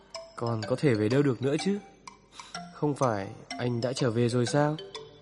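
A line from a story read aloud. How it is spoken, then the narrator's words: Lowered voice. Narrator (Vietnamese): Anh hạ giọng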